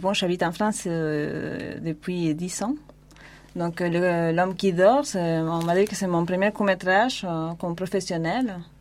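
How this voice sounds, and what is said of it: Argentine accent in French. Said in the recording (French): “ce superbe accent... Argentin... argentin.”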